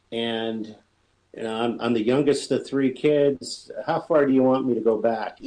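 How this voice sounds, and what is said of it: Cleveland, Ohio accent. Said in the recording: “I'm a native Cleveland, Ohioan, which would explain my accent and my voice for radio”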